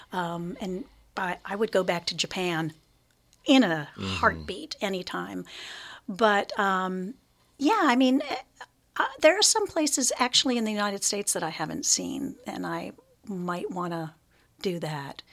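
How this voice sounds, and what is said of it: Hoarse, crackly voice. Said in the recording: “me and my hoarse voice, so crackly”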